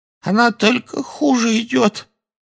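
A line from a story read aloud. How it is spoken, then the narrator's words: Hoarse. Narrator (Russian): хрипло сказала Кэти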